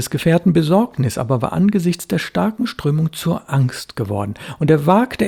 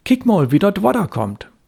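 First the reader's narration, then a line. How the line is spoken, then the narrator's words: Called out. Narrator (German): rief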